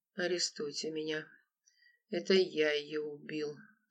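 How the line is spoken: Weak voice. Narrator (Russian): слабым голосом проговорил Анатолий

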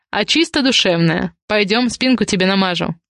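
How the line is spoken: Amused snort. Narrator (Russian): хмыкнул он

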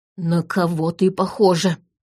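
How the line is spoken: Hissing. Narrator (Russian): прошипел он

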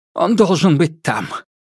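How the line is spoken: Breathed out. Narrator (Russian): выдохнул Ванцовский

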